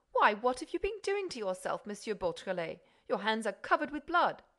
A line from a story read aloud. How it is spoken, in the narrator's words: the magistrate exclaimed